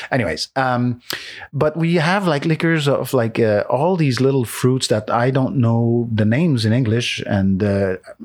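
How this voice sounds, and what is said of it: French accent speaking English. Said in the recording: “It's a French-speaking country, and as you can tell from my accent,”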